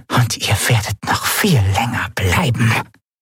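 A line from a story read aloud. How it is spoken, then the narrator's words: Whisper from corner. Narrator (German): wisperte eine Stimme in der Ecke des Raumes, in der Zailar lag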